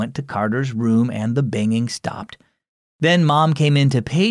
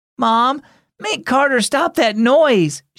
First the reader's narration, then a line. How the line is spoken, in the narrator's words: she pleaded